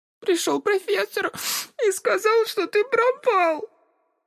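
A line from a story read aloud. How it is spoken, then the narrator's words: Sobbing. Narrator (Russian): Сказала Элли между всхлипами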